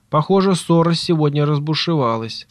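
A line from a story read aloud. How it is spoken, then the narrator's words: Plain. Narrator (Russian): сказал Ретив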